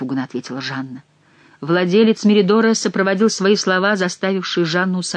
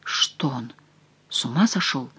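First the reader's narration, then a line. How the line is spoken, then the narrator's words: Quiet surprised question. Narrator (Russian): тихо спросил Сен-Люк у своей жены с удивлением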